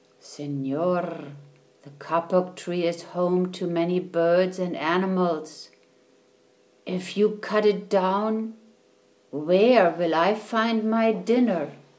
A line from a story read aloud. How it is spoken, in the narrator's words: 4 tree porcupines whispered